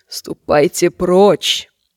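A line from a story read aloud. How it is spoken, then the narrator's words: Hoarse whisper. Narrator (Russian): сказала она хриплым шепотом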